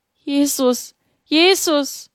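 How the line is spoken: Trembling cry. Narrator (German): Mit bebenden Lippen rief sie

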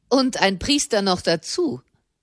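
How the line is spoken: Man adds mockingly. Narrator (German): fügte ein Mann höhnisch bei

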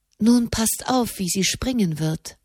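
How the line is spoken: Whispered. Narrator (German): flüsterte Elise

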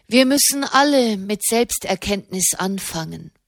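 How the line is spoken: Plain. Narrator (German): sagte Katharina

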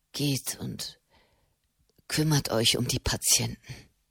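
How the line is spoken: Murmur. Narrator (German): murmelte Matteo Cenni

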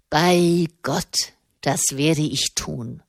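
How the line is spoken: Growled. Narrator (German): knurrte Malavolti

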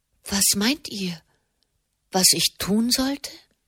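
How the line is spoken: Gentle question. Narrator (German): fragte sie sanft

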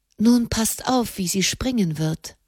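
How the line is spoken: Whispered. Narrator (German): flüsterte Elise

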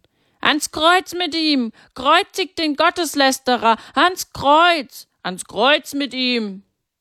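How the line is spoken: Crowd chanting shouts. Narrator (German): Die Feinde Jesu hörten nicht auf, das zu schreien, und immer mehr ließen sich von ihnen anstecken und schrien mit

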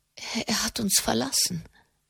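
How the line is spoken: Stammering. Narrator (German): stammelte sie

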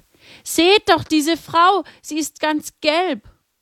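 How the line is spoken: Frightened scream. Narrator (German): Erschrocken schrie auf

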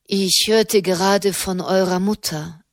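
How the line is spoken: Plain. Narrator (German): sagte er

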